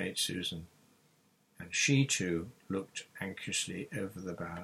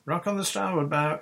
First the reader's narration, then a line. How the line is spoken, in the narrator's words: she shouted